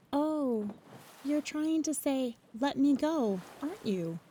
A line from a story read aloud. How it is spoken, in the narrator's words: said